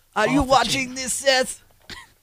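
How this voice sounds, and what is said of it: Imitates another person's voice. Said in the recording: “my Mysterio impression is awesome”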